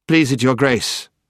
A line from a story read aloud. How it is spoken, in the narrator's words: said very coldly and politely